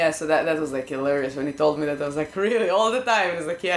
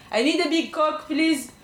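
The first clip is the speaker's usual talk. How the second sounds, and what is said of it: Imitated French accent. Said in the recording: “that's like the French accent”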